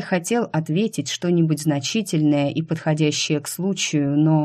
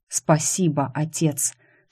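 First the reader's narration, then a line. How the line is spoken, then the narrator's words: Mouthed whisper. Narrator (Russian): шепнул Кай одними губами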